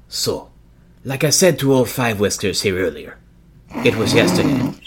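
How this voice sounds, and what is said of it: Put-on accent for a character. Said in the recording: “I'm gonna see if I can get my accent right that I picked for this one.”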